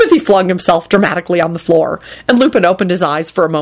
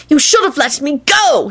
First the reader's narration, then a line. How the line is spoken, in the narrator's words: he finally shouted